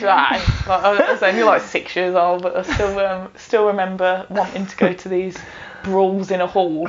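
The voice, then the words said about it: Thick Birmingham (Brummie) accent. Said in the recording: “you have a really thick, like, Brummy accent”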